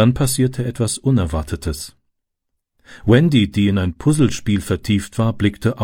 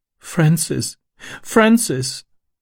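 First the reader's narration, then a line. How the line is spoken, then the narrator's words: Sobbing. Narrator (German): schluchzte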